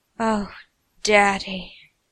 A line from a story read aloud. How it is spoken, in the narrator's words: Arthur moaned as he grew closer to the finish